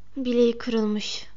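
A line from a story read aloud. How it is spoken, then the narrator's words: Muttered. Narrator (Turkish): diye mırıldandığını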